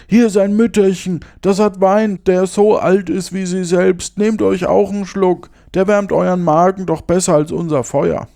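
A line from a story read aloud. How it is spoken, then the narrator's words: Calling out. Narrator (German): rief einer denen zu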